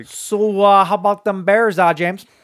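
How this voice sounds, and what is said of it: Put-on Midwestern accent. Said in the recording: “speaking of the Midwestern accent.”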